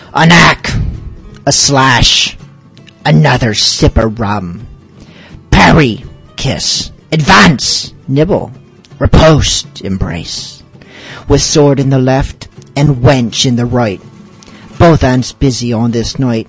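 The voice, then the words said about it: Pirate character voice. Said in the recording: “in my best piratey voice”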